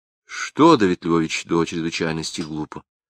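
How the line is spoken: Plain. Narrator (Russian): спросила Балашова

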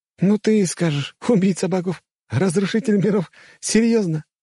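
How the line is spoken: Relaxed laughing. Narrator (Russian): засмеялся Ода, немного расслабившись

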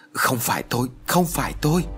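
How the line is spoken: Frightened, repeated pleading. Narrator (Vietnamese): Thầy Tàu sợ hãi, miệng không ngừng nói

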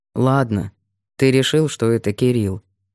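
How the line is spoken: Gloomy. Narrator (Russian): мрачно сказал Сергей

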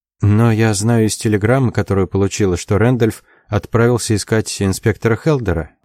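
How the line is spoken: Grim. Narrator (Russian): мрачно сказала Джози

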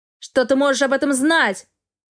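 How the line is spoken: Roar. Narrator (Russian): взревел Астел

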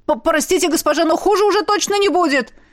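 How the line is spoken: Shouting over shoulder. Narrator (Russian): крикнул он через плечо

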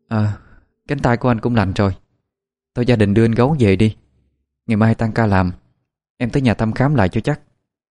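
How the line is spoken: Sighing. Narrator (Vietnamese): Liễu cũng thở dài

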